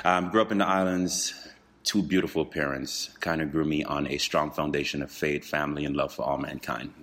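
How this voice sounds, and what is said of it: Caribbean accent. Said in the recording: “Originally, I'm from the Caribbean islands. So the more I talk, you'll hear my accent kind of jump out.”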